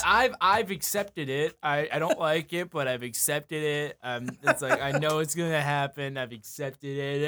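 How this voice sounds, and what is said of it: Imitates another person's voice. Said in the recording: “That was a great chat impression.”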